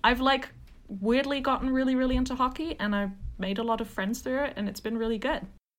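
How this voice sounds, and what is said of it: British accent. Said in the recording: “if you couldn't tell by the accent, I'm British”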